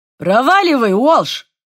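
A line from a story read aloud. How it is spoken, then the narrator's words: Barked. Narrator (Russian): рявкнул шеф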